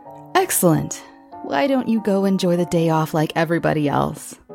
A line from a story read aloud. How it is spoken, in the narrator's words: The elf chuckled